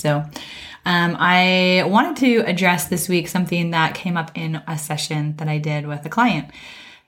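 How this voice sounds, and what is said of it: Raspy voice with heavy breathing. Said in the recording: “I have had a cold and I hope my voice will last, but that's why I sound a little bit raspy and probably heavy breathing”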